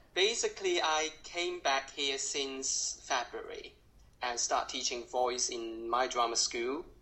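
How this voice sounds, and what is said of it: Strong Cantonese accent in English. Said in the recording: “I speak in a very strong Cantonese accent now.”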